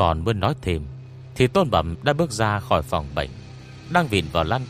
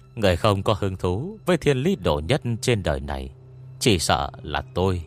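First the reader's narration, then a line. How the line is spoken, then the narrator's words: Cold mocking laugh. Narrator (Vietnamese): Ngô Nhân Địch cười nhạt, như là nghe thấy chuyện đáng cười lắm, rồi nói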